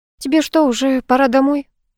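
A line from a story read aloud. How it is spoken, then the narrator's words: Girl's sad question. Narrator (Russian): грустно спросила девушка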